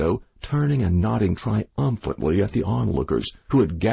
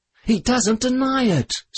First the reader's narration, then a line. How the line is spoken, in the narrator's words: screamed the widow